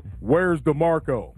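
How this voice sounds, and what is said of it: Very deep imitated male voice. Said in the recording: “Michael Clark Duncan has this deep voice, right? Imagine his voice... In that deep-ass voice.”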